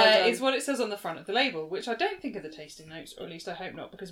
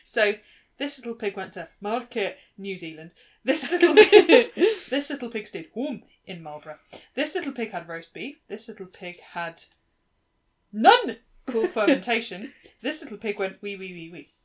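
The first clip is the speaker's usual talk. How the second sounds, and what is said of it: Put-on Scottish accent. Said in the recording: “Different accent. ... pitch an accent ... Scottish,”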